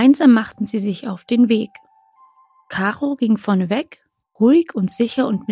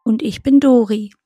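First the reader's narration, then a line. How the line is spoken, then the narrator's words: Plain. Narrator (German): sagte das zweite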